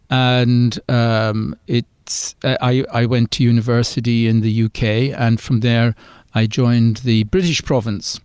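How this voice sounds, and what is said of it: Irish accent. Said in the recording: “as you'll hear from my accent, I'm originally from Ireland”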